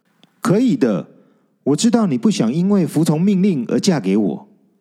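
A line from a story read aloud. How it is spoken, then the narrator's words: Trembling voice. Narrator (Chinese): 比比声音颤抖着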